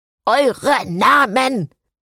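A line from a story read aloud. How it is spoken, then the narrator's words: Thundering skeleton. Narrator (German): donnerte das wankende Skelett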